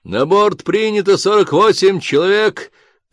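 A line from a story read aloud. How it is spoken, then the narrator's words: Shouting. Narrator (Russian): крикнул он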